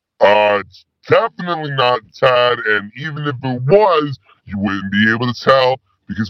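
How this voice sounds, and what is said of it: Disguised voice. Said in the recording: “my voice is disguised.”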